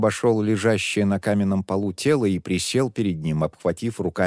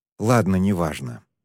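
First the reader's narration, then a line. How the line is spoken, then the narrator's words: Sighed. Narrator (Russian): вздохнул Шен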